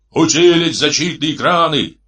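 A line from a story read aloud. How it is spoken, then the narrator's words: Roaring loudspeaker. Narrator (Russian): проревел динамик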